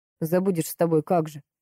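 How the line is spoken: Dejected grumble. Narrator (Russian): проворчал, понурившись

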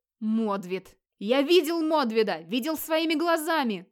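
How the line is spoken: Shouting. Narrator (Russian): кричал Скьёльд

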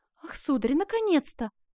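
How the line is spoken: Exclamation. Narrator (Russian): воскликнула

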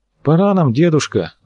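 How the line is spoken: Sigh. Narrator (Russian): вздохнул Косухин

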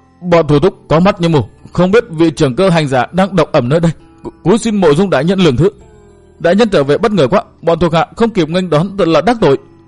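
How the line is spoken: Trembling fearful voice. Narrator (Vietnamese): Hắn cất giọng run run đầy vẻ sợ hãi

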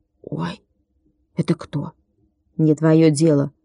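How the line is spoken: Grumbled. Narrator (Russian): буркнул Владик

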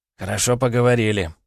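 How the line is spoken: With a snort. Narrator (Russian): хмыкнул Егор

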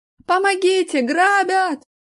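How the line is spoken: Frantic screaming. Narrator (Russian): истошно завопил Аркаша

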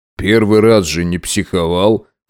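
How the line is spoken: Snort. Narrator (Russian): хмыкнул Макс

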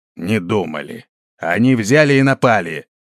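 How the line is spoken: Grumbling general. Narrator (Russian): проворчал генерал

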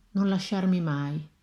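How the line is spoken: With a slight sigh. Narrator (Italian): con un leggero sospiro disse

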